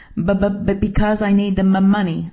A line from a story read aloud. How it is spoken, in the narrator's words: I sputtered